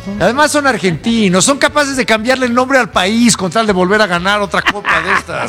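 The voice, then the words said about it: Poor attempt at Argentine accent. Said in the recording (Spanish): “¿Estabas tratando de hacer un acento? ... ¿Acento argentino? ... Pero luego ya sonó yucateco y no entendí. ... Lo hice fatal.”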